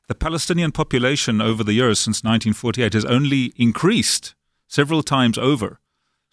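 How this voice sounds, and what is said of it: South African accent. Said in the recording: “as you know from my accent, I was actually brought up in South Africa”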